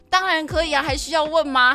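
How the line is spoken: Loud, confident. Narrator (Chinese): 他就有底气，他就大声讲说

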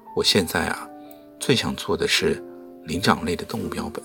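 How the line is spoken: Flat, indifferent. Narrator (Chinese): 他淡淡的说

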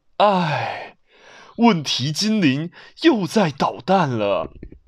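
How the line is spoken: Heavy sigh. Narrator (Chinese): 爸爸大大的叹了一口气

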